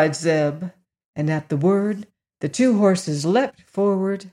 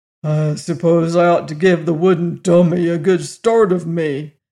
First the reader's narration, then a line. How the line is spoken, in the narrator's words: growled Jim